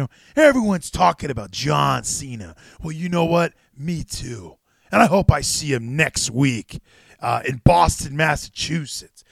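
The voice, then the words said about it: Impression of wrestler Austin Theory. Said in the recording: “Is that a good impression”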